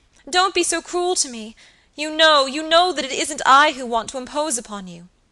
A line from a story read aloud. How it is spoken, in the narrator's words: cried Phoebe piteously